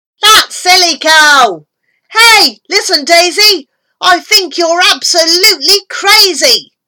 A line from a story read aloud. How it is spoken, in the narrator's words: This fellow, standing in the crowd, raised up his voice and yelled aloud